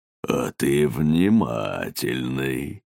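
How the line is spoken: Creaky cake voice. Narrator (Russian): проскрипел тортик

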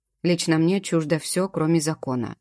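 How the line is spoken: Cold reply. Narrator (Russian): отвечаю холодно

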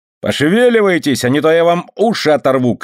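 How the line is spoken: Shouted. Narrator (Russian): крикнул экс-жокей

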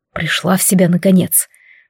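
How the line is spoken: Man's whisper. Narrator (Russian): прошептал надо мной мужчина

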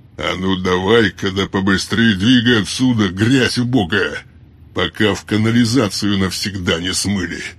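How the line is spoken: Contemptuous booming bass. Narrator (Russian): С явным пренебрежением басом прогремел еще один из громил

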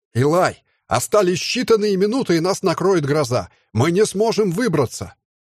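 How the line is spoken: Shouted right into ear. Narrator (Russian): прокричал прямо в ухо одному из своих соратников пилот

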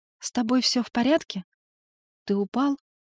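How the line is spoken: Timid, embarrassed. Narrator (Russian): робко произнесла она, смущаясь

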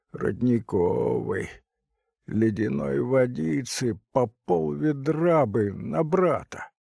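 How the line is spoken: Creaky voice. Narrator (Russian): кто-то сказал скрипучим голосом

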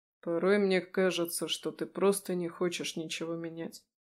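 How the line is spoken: Muttered. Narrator (Russian): пробормотал он

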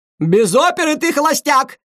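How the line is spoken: Shout from behind door. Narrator (Russian): крикнула Паула из-за двери

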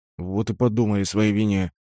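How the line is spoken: Grumbling mutter. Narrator (Russian): пробурчал наставник

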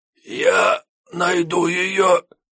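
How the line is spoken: Hoarse rasp. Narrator (Russian): прохрипел Рамуил

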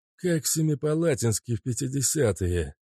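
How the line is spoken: Muttered by a sorcerer. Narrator (Russian): пробормотал колдун

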